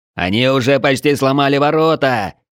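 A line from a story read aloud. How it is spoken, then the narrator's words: Distant shout. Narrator (Russian): крикнул кто-то со стены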